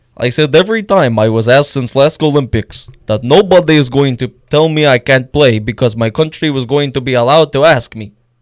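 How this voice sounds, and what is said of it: Weak put-on Russian accent. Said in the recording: “reading it in a Russian accent ... That was that wasn't really Russian. ... honestly, I thought that was Ovechkin.”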